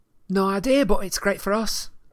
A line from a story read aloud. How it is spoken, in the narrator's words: said Ginny brightly